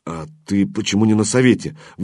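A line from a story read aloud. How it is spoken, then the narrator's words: Forced out. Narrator (Russian): выдавил Зорин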